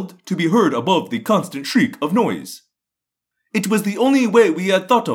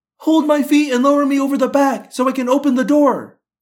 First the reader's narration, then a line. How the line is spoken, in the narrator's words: Cassie yelled